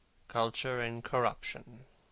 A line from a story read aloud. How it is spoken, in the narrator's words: murmured Dorian